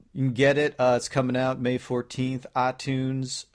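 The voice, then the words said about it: Put-on Southern American accent. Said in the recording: “I just got a southern accent somehow”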